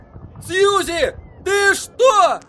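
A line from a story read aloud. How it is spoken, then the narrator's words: Yelled. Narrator (Russian): заорал Эдди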